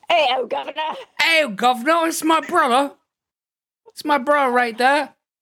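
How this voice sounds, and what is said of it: Deliberately bad put-on British accent. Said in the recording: “I'll just do like a terrible British accent.”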